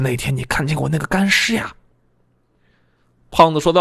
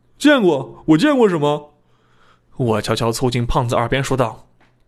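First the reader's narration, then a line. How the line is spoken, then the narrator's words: Laughing. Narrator (Chinese): 我笑着说道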